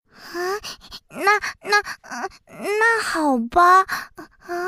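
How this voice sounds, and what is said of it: Usual voice. Nothing is said of it.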